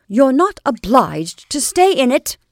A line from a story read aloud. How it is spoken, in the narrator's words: Kate said fiercely